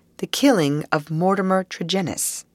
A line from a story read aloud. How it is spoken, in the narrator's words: said Holmes